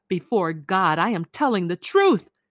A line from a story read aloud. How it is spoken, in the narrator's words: she cried